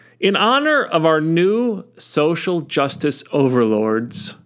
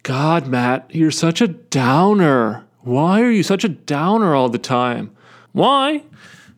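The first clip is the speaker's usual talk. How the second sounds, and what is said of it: Imitates another person's voice. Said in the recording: “Why am I doing this stupid accent? Why am I imitating Bill Burr imitating Jerry Seinfeld?”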